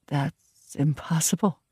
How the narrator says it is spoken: I whispered

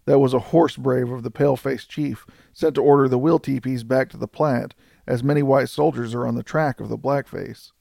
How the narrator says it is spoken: muttered Buffalo Bill

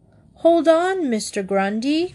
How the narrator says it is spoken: cried Paddington

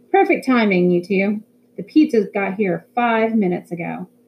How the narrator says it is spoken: He called out

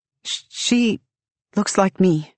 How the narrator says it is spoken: falter, stutter

